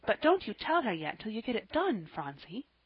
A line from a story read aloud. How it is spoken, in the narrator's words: whispered Polly